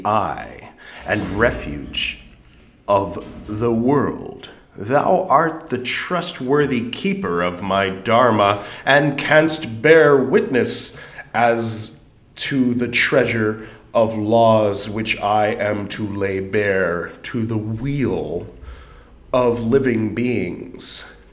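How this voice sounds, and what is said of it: Character voice for the ancient Buddha. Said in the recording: “that was the voice, the character voice I've chosen to give the eons past Buddha, Chandra Surya Pradipa”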